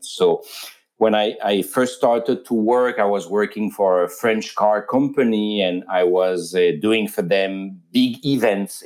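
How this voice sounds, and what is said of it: French accent. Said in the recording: “I'm a French citizen, so you probably heard with the accent.”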